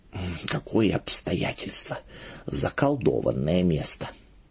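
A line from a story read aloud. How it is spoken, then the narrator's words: Embarrassed whisper. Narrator (Russian): Благочинный в крайнем смущении и шептал соседу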